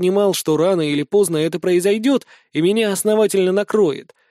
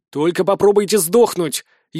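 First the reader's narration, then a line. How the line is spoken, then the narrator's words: Almost shouting. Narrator (Russian): едва не прокричал я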